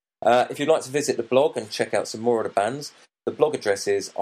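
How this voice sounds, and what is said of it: Congested voice with a cold. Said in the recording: “I apologise for my sound. I've got a bit of a cold”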